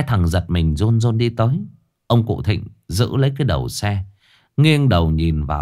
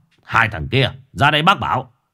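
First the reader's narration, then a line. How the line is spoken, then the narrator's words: Shouting. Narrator (Vietnamese): Bác chỉ tay quát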